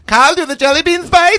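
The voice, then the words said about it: Thick accent imitating his mother. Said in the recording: “I don't think you're doing the accent thick enough, by the way. ... That's much better. ... in her voice”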